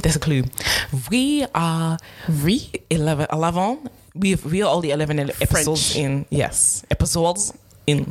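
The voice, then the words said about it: Bad put-on French accent. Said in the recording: “My French accent. ... That was the first bit was really bad.”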